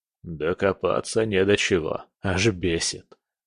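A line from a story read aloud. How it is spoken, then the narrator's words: Grumbling. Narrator (Russian): проворчал он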